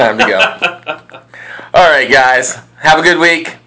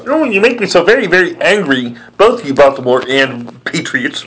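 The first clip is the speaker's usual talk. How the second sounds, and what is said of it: Cartoon Marvin the Martian voice. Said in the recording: “Next week will be my impersonations. But I don't think there's any place on the team for Marvin the Martian”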